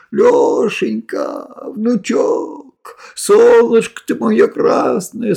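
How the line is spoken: Old woman wailing joyfully, tearful. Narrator (Russian): сквозь слезы радости все причитала бабка

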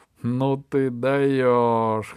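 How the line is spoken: King guffawing. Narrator (Russian): хохотал король

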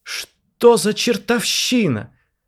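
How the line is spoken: Loud shout. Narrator (Russian): закричал на весь зал Леонид

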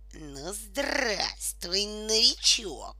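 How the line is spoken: Angry hiss. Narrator (Russian): злобно прошипел он

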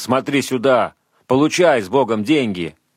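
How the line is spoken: Shouting. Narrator (Russian): кричал

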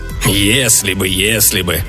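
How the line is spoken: Grumbling. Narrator (Russian): проворчал полковник

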